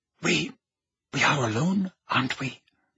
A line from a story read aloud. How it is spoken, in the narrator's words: Narcissa asked quietly